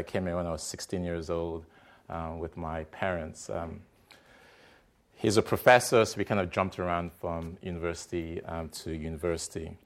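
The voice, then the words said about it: Non-American accent. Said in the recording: “As you can tell from my accent, I'm not American”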